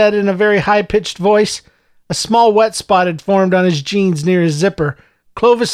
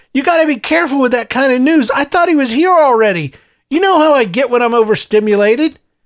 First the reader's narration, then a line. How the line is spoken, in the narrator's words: Clovis shouted